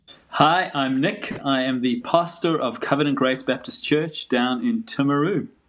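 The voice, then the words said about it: South African accent. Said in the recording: “the weird accents, it's because we're both not from New Zealand, but from South Africa”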